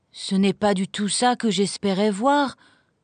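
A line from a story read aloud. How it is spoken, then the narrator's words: Sad. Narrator (French): dit tristement Heidi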